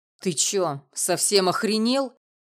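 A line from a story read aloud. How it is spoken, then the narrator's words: Barked. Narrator (Russian): рявкнул сосед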